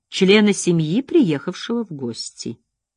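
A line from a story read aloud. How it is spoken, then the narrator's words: Gentle correction. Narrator (Russian): мягко поправил он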